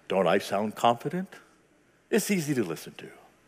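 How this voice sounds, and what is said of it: Confident radio announcer voice. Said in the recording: “you have a radio voice.”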